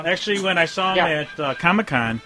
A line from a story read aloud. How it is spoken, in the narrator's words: I yelled